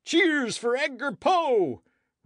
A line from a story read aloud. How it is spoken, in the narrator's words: roared the assemblage, electrified by their president's words